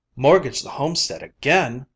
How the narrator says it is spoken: Lou cried

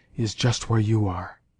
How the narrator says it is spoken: whispered in words that reached her only

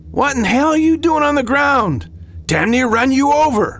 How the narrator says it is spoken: the driver yelled

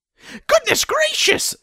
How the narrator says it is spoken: she squeaked

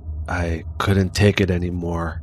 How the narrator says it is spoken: softly said, more to himself

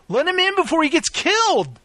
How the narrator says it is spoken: Jack again shouted

